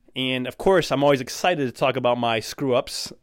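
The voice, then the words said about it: Sarcastic tone. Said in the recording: “I say that sarcastically”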